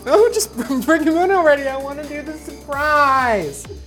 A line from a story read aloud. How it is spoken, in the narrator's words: Justine giggles and hiccups and says